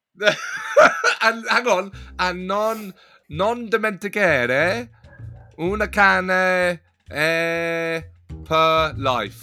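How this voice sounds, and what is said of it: Mock Italian accent, lots of vowels. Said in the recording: “You are just getting good at the accent... It's an impression of Italian... It's lots of O's... It's just vowels.”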